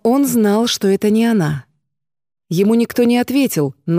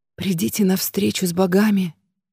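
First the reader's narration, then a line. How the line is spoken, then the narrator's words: Whispered. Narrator (Russian): прошептал Герман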